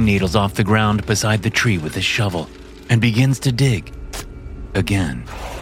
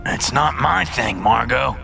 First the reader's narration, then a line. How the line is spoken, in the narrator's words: Gideon grunts